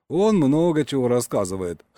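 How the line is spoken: Wry snort. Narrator (Russian): хмыкнул бармен

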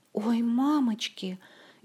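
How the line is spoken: Frightened gasp. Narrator (Russian): испуганно ахнула Ольга

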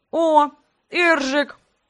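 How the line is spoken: Mumbling with full mouth. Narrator (Russian): прошамкал набитым ртом братец

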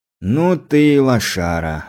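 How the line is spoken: Sighing. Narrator (Russian): вздохнул

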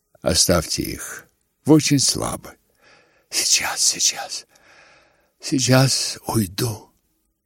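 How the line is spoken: Whispering. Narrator (Russian): говорил с князем, то все наклонялся и шептал

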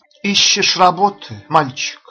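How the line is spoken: Kind question. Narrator (Russian): спросила она, ласково

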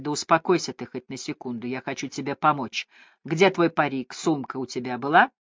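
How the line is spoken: Whispering in ear. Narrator (Russian): в ухо ему зашептали

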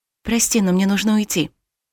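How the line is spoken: Whisper. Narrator (Russian): шепнула я

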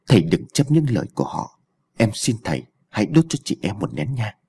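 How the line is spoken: Said softly. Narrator (Vietnamese): Thủy nói khẽ với An

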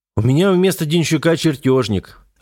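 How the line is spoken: Irritated. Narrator (Russian): ответил инженер раздраженно

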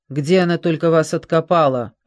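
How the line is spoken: Barking. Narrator (Russian): рявкнул Твит

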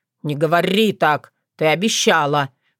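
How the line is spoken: Miserable wail. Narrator (Russian): взвыл несчастный Вран

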